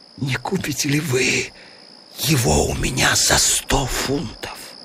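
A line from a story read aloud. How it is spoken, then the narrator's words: Whispered. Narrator (Russian): шепнул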